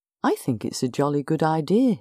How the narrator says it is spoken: he said

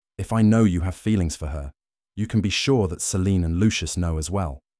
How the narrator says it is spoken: Kenneth replied

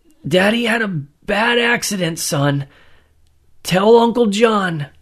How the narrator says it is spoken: managed to grumble out

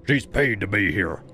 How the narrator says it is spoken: the tallest one barked

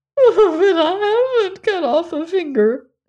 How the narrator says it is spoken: sobbed

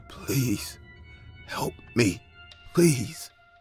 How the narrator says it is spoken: He said in a broken voice

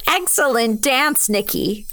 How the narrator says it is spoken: Una said as she laughed

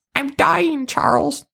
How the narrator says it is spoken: the member squeaked

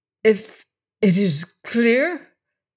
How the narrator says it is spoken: faltered

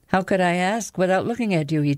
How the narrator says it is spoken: He chuckled

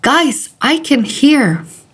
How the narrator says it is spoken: exclaimed happily

